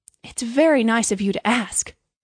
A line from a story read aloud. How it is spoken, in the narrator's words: cried Hans